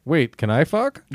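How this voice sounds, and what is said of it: Robot character voice. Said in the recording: “This is my impression if I was a sex robot.”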